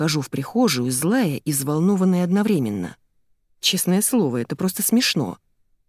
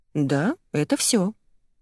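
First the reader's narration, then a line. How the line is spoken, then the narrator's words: Calm. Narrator (Russian): спокойно отвечаю я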